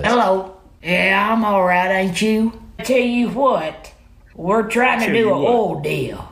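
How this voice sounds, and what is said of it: Southern Appalachian accent impression. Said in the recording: “If an Appalachian Papa was the president ... imagine if Joe Biden had a Southern accent”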